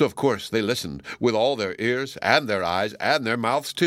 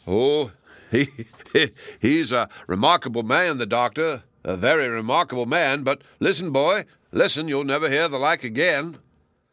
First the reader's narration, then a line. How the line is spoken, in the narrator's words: The toyman chuckled and replied